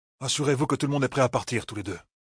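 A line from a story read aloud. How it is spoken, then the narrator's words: Muttered. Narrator (French): marmonna Perrine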